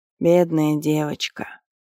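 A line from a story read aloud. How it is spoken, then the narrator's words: Barely audible breath. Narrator (Russian): Чуть слышно выдохнула Лерат в сторону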